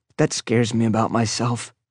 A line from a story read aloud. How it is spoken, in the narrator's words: I said softly